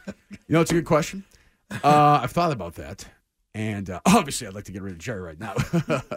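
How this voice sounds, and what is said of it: Put-on podcast-host voice. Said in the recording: “Let's hear ... podcast voice ... I'll give my podcast voice right now”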